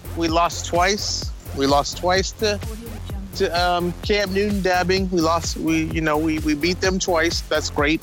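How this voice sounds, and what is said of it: Deliberately deepened voice. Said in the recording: “Your voice got a little deep on that.”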